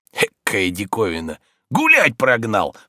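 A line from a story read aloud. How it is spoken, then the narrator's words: Hoarse mocking mutter to self. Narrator (Russian): с усмешкой сипел он про себя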